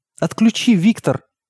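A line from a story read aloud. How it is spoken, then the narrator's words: Pleading mother. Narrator (Russian): взмолилась мама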